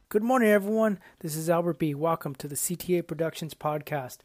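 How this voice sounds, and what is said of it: Slightly cracky voice. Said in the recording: “My voice is a little cracky today.”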